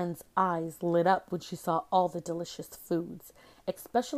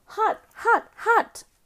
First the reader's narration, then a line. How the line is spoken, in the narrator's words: Juma yelled